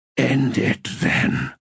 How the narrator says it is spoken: he croaked

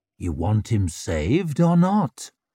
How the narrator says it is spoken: purred the man's voice

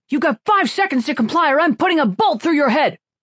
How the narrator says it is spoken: shouted the trooper with the blaster

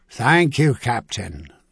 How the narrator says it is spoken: Yearly replied gravely

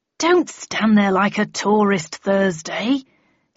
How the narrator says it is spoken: he snapped crossly

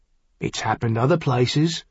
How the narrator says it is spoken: Seafarmer pointed out grimly

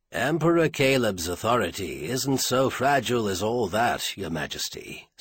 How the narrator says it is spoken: Stainer said dryly

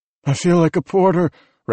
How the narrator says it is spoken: Raff said, wheezing between words

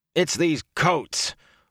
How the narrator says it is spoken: Rand growled

